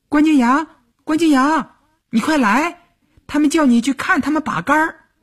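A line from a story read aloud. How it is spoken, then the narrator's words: Excited calling through window. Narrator (Chinese): 蹦蹦跳跳地，踮着脚尖朝窗户里喊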